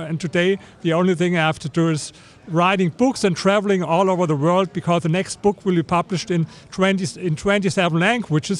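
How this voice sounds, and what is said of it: Strong German accent in English. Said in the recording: “you have a bit of an accent ... I think I have a big accent, maybe similar to Arnold Schwarzenegger ... He comes from Austria and I come from Germany”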